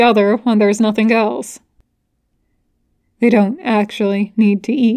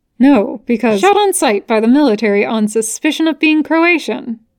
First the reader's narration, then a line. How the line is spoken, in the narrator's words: Dean asks brightly